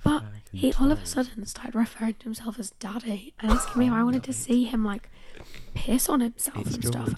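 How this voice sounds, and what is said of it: Hoarse, partly lost voice. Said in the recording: “I've currently lost my voice a little bit ... bronchitis.”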